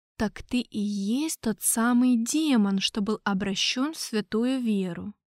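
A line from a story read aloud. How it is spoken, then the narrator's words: Quiet question, father. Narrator (Russian): негромко спросил папа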